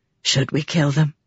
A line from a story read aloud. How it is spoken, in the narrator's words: She muttered